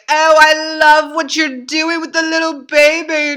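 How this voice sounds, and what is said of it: Poor put-on British accent. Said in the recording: “this is my terrible British accent.”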